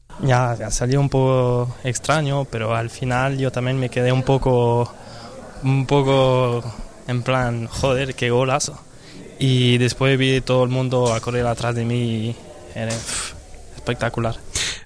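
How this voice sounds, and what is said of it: French accent, speaking clearly. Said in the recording (Catalan): “parla en accent francès, ell és suís, però parla clar.”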